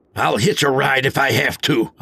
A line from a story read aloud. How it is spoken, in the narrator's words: I barked